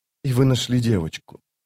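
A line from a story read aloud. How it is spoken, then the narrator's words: Quiet voice. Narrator (Russian): тихо проговорила она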